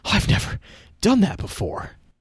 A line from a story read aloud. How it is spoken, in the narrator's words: Griffin whooped and said breathlessly